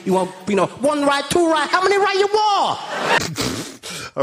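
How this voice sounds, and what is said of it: Over-the-top put-on Chinese accent. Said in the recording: “really quite an over-the-top Chinese accent ... shouting orders in a loud voice that we can't understand”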